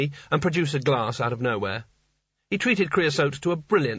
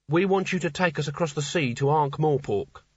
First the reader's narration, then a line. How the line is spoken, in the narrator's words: said Kanina firmly